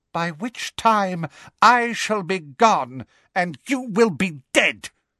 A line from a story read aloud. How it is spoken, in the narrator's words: spat Voldemort